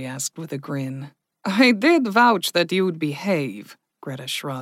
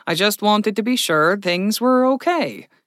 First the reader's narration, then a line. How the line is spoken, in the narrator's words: she chuckled